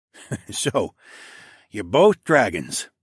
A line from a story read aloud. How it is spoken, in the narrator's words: Mael said as he chuckled